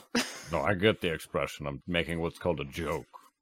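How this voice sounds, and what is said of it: Flat deadpan delivery. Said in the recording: “you're so deadpan”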